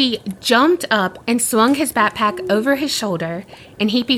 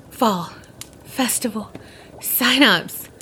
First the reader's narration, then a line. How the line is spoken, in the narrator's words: swallowed the bite, and then he gasped out